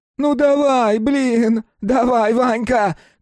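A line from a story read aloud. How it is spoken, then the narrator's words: Shouting. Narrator (Russian): кричал Снегирь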